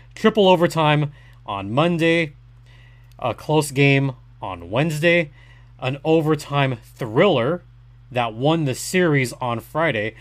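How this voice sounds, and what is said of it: Sore, strained voice. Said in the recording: “I'm saving my voice, guys. My voice is actually still sore.”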